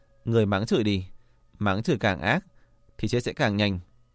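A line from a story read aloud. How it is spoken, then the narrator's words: Quiet cold sneer. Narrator (Vietnamese): Tần Triều Vân thì âm thầm cười nhạt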